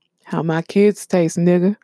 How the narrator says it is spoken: Eric said

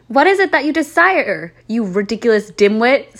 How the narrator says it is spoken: Snape demeaned angrily in his cold voice

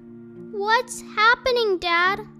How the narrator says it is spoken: cried the small foxes

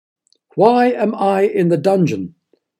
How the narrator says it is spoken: the cook shouted

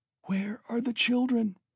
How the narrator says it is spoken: she said in a faint voice

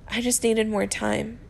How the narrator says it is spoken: he admits with a wet gasp

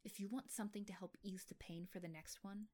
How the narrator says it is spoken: she hissed

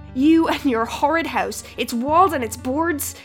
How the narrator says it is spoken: they howled

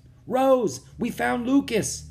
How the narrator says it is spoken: Jack cried

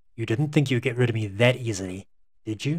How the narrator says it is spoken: John smiled sardonically and in a calm yet menacing tone said

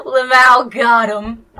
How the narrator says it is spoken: Rochelle giggled

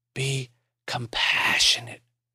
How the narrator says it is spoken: Maury whispered

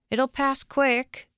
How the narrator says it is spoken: shouted, but the girl couldn't hear him

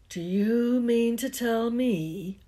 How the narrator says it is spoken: he growled at the Dursleys

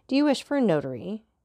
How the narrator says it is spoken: asked Villefort

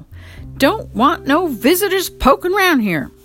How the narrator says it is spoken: they shouted through the keyhole

